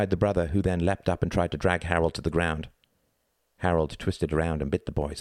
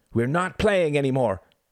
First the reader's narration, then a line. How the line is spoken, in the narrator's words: he shouted